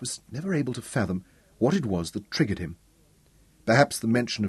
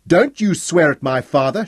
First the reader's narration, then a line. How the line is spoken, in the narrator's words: shouted back